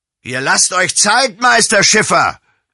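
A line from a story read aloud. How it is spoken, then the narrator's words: Calling out. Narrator (German): rief Josef Steinhaus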